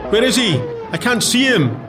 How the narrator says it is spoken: some of the gunners yelled

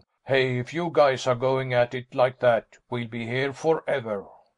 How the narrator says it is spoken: one of the Haslops grunted

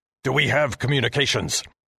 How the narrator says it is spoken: Commander Heston shouted at me

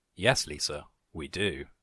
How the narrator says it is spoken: Bob chuckled

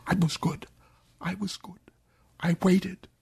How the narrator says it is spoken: Her mouth was all broken, though, so she could only whisper

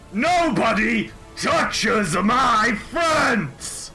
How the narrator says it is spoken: Screams and says

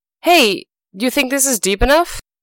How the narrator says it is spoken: he yelled up to the rabbit

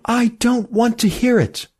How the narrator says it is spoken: cried Emmy

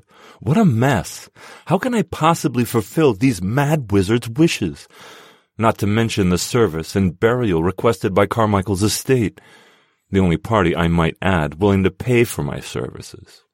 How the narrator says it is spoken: I moaned

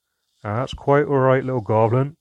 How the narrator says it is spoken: laughed the dwarf, smiling widely

